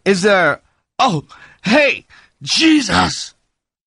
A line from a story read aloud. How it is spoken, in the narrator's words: And suddenly Lonnie screamed